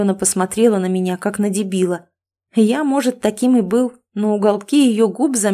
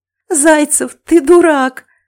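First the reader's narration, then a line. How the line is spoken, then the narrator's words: Laughing loudly. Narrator (Russian): расхохоталась моя фея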